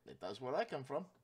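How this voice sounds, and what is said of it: Put-on fantasy dwarf accent. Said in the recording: “with the Hill Dwarven accent”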